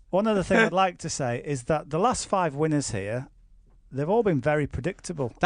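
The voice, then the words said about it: Dutch-American hybrid accent. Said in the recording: “That was like a hybrid between a Dutch accent and an American accent there. You went American slightly towards the end.”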